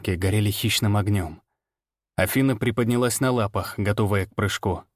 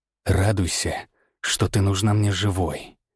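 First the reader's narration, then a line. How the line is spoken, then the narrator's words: Hissed into face. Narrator (Russian): прошипел я ей прямо в перекошенное лицо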